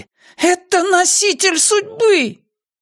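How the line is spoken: Old woman shouting. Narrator (Russian): Так кричала старуха

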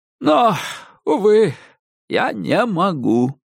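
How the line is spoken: Sighing elderly man. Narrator (Russian): вздохнул престарелый мистер Рофф

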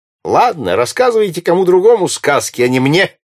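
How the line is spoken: Good-natured laughing reply. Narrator (Russian): ответил ему добродушно смеясь сэр Найджел

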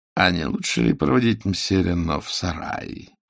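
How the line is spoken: Ingratiating suggestion. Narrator (Russian): вкрадчиво предложил Жиро

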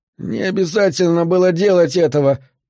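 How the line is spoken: Whimpering. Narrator (Russian): прохныкал Скарф

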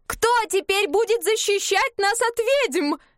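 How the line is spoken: Woman shouting on screen. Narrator (Russian): кричала женщина на экране

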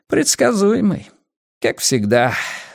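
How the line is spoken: Sighing. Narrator (Russian): вздохнул киллер

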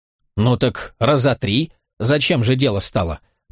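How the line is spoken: Predatory catlike snort. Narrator (Russian): покошачьи хищно фыркнула Афарга

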